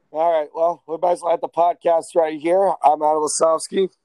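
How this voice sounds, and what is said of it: Tired, bad-sounding voice. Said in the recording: “I'm just so beat from the weekend ... my voice is so bad”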